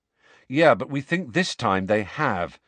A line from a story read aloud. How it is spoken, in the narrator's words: said Harry